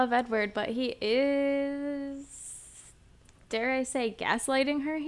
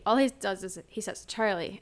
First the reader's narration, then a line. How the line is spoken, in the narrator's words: Edward said in a conversational tone